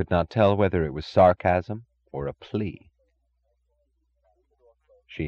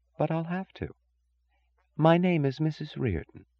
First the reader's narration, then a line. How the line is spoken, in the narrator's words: she said softly